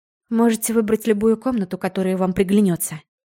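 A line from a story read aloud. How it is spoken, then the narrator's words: Tired offer. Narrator (Russian): устало предложила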